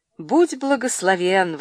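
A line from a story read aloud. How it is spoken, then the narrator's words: Exclaiming. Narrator (Russian): воскликнул он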